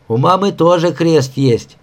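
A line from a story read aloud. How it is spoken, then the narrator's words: Cheerful. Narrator (Russian): весело сообщил Сашка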